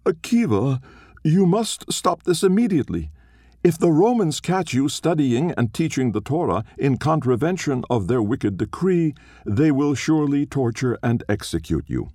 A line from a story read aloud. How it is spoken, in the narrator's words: Being afraid, it cried out